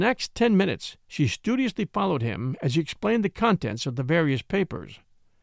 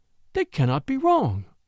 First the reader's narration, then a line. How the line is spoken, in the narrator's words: she cried at last